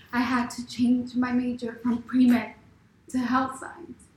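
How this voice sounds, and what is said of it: Emotional, near-tearful voice. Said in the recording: “sorry, I'm getting emotional.”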